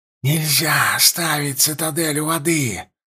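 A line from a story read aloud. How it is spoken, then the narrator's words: Hissing, mouth wide open. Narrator (Russian): шипел он, широко раскрывая рот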